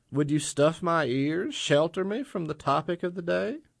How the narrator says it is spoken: He laughed

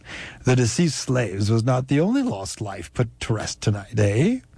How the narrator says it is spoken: He chuckled

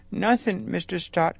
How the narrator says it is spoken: quavered Hubert

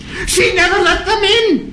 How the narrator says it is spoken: he cried again, through his laughter

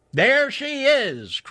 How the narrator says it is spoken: cried Chuck

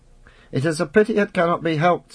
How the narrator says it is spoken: said the penner eagerly

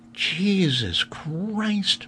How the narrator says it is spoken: Mary said softly

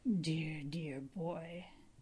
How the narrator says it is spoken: he murmured against my shuddering flesh

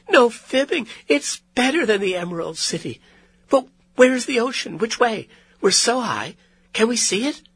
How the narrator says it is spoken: she exclaimed

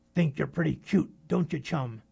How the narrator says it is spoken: the mountain of muscles snarled

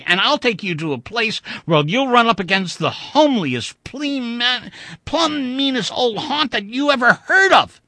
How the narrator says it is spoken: said half hysterically

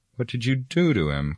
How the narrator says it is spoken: cried Frodo in alarm

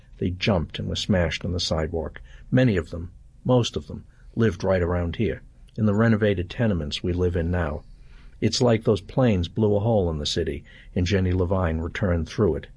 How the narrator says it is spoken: Her voice tightened as she said

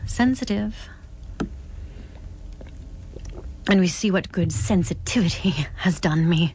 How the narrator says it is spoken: Clara choked

